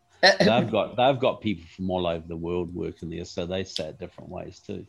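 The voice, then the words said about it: Noticeable non-American accent. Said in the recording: “with your accent”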